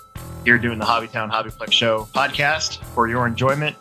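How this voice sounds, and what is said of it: Stuffy, congested voice. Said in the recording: “I'm a little stuffy. My voice might be kind of weird today”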